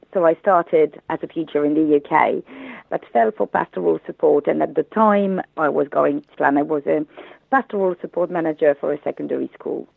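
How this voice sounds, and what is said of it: French accent speaking English. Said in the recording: “You may have heard from my accent that I am not English. I moved in the UK 15 years ago from France”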